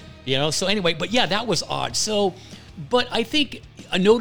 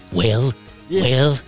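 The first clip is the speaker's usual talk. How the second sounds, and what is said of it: Imitates another person's voice. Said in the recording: “imitating the great President Reagan ... that's the easiest impersonation ... you sound just like him, too”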